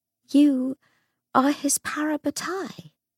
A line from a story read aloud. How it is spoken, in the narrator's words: said Lucy, her voice shaking slightly